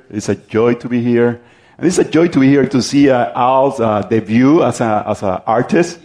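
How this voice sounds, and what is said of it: Strong regional accent. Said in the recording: “nowhere north of Miami can handle my accent”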